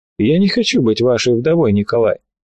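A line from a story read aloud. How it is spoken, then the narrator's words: Unexpectedly dry voice. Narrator (Russian): Голос ее прозвучал неожиданно сухо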